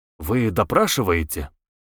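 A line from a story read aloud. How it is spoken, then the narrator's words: Angry question. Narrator (Russian): Самгин сердито спросил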